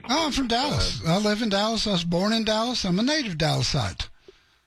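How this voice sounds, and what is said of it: Texas accent. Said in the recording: “I love the accent ... All Texas, man.”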